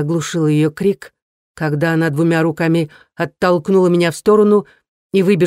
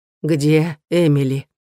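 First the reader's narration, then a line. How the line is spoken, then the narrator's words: Hoarse question. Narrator (Russian): Мама Эмили спросила охрипшим голосом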